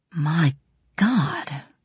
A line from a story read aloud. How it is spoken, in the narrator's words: breathed Braun Lamia